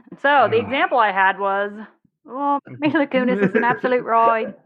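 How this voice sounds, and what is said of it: Put-on Irish accent. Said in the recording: “I think your accent is pretty good there. ... St. Patrick is crying in his grave.”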